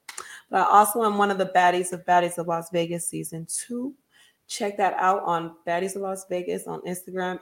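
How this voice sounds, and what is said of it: Strained, fading voice. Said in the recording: “I'm losing my voice today, so I don't sound like my normal self.”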